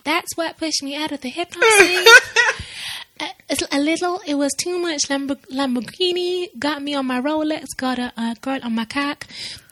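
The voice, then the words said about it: Puts on an accent. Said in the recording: “let me put on a little accent.”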